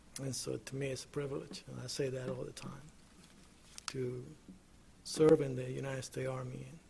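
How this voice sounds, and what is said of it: Speaks with an accent. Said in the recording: “perhaps I'm the only one with an accent here”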